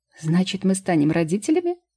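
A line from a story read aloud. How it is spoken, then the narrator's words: Joyful question. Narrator (Russian): радостно поинтересовался Вит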